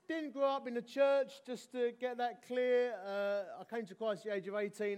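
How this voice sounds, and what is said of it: Essex English accent. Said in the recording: “As you can tell from my accent ... I'm from Essex.”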